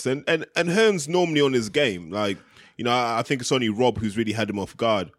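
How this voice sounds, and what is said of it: Regional accent with elongated A's. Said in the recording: “I like to elongate my A's ... Your accent does sort of lend itself to that.”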